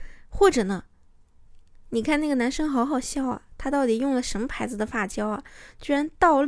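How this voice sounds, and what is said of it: Usual voice. Nothing is said of it.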